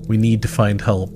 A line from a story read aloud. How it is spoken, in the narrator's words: his voice trembling as he tried to regain some semblance of composure